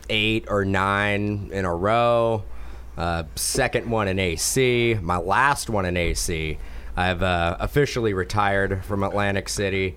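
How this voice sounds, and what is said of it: Strained, worn-out voice. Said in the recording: “you can tell my voice is struggling. That happens no matter what national I go to.”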